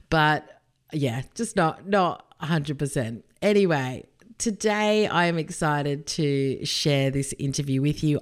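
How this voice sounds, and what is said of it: Husky, hoarse voice. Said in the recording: “I am suffering a little bit with a chest infection ... my voice sounds a little bit husky”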